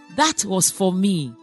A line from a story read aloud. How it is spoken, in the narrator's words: Mother Teresa calmly withdrew that hand and said